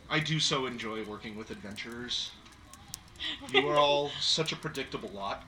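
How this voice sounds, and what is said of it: Character voice, audibly smiling. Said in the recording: “you can almost hear the smile in her voice”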